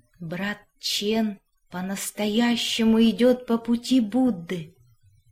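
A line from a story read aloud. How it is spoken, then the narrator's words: Quiet, to himself. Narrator (Russian): тихо сказал сам себе мастер Ли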